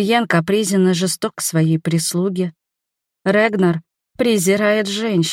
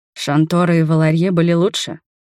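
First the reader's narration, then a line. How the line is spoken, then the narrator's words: Calm reply. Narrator (Russian): спокойно ответил Акихиро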